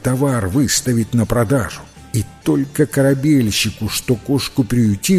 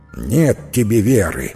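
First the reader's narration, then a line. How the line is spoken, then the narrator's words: Angry grumble. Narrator (Russian): сердито проворчал корабельщик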